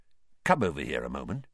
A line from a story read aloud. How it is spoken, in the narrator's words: Weasley quietly